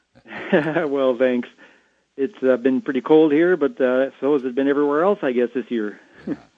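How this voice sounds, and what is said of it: Canadian accent. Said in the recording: “Love that Canadian accent.”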